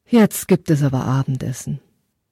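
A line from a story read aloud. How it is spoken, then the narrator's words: Mother, deep sigh. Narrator (German): Seine Mutter seufzte tief und sagte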